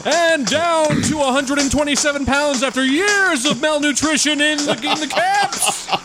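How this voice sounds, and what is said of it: Boxing ring announcer voice. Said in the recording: “definitely a ring announcer because they'd announce his weight”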